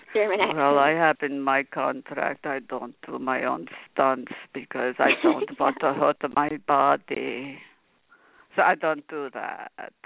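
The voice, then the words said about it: Put-on thick German accent. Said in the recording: “He's got this thick German accent.”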